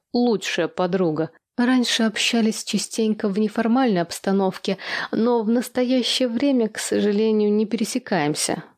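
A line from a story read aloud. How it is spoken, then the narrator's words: Upset sigh. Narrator (Russian): расстроенно вздохнула я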